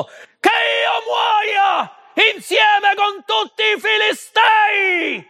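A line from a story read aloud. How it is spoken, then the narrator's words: Shout. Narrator (Italian): urlò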